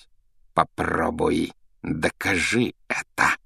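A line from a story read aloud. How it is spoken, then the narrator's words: Hissing. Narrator (Russian): прошипел он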